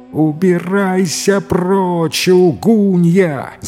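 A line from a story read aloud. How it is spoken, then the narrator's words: Wild unrecognizable scream. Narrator (Russian): завопила жена не своим голосом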